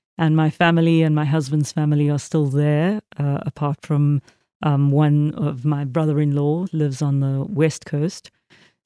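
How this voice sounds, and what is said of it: South African accent. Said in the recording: “I have an accent, obviously. I was born in South Africa”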